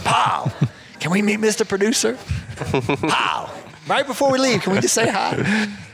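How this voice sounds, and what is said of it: Thick Mississippi Gulf accent. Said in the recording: “has this thick Mississippi Gulf Mexico accent.”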